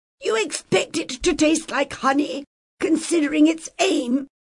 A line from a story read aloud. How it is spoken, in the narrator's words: Haga snapped